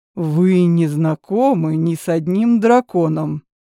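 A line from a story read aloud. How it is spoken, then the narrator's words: Elf's growl. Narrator (Russian): рыкнул эльф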